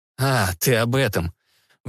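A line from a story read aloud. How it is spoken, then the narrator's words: Indifferent snort, hidden tension. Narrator (Russian): внешне равнодушно хмыкнул Кольцов, внутренне напрягаясь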